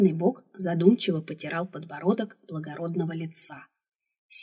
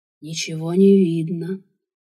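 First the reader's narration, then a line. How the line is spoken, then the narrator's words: Purring. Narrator (Russian): Вновь мурлыкнул он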